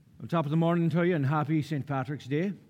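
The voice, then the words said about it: Put-on Irish accent. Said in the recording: “I'll be preaching the rest of the sermon in this accent”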